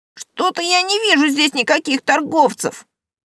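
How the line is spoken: Grumbling. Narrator (Russian): проворчал Рокша

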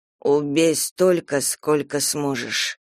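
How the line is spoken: Plain. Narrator (Russian): сказал он

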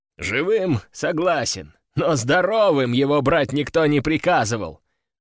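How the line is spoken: Loud laughing. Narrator (Russian): расхохотался командующий

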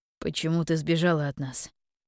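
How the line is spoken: Quiet, troubled question. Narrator (Russian): тихо спросил он, озвучивая, наконец, то, что так мучило его в последние две седмицы

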